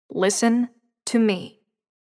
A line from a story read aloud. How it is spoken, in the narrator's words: she said, in the most serious tone Layla had ever heard her use